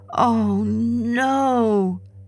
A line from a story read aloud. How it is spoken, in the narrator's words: he moaned